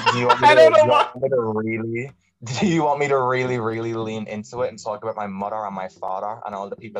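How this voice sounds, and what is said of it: Irish accent. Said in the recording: “if you can hear from the accent, actually Irish”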